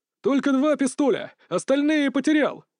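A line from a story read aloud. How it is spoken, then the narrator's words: Shouted reply. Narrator (Russian): крикнул, отвечая Васильчиков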